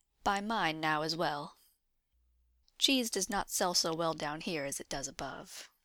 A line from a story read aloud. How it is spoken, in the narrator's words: she confessed calmly